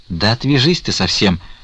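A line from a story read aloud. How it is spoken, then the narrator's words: Impatient shout. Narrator (Russian): с нетерпением крикнул Потап Максимыч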